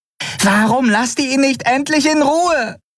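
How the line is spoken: Shouting. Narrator (German): schrie Nelen in ihrem Käfig die Weißmäntel an

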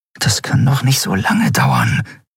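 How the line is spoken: Murmur. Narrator (German): murmelte Endriel

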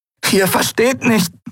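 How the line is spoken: Croaked. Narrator (German): krächzte sie

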